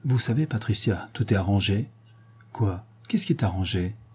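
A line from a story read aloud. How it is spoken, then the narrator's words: Abrupt grave tone. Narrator (French): il dit, à un brûle-pourpoint et d'un ton grave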